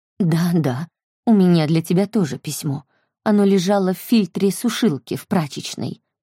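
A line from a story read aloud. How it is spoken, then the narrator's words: Plain. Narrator (Russian): сказала Брит Мари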